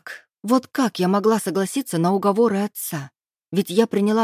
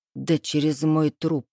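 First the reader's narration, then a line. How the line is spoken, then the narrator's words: Through clenched teeth. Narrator (Russian): процедил я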